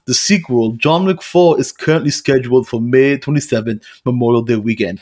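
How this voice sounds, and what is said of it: Shifting mix of Austrian, Russian, Stallone accents. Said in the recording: “You jumped from a few different accents there ... I gave him this ambiguous accent ... Austrian ... I heard some Russian ... I heard some Stallone”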